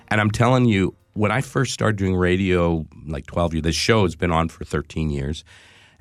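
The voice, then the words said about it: Congested, stuffy head-cold voice. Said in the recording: “A little congested. ... I got this head cold ... I have a head cold.”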